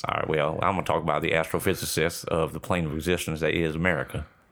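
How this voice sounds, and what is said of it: Put-on Southern drawl. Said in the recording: “I'm going to be a Southern draw boy ... you chose to do a Southern accent”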